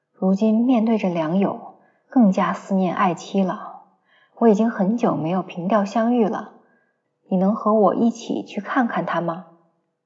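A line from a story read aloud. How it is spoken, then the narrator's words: Wistful sigh. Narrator (Chinese): 黄生感叹道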